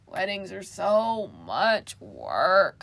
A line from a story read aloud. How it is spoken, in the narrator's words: Caramel groaned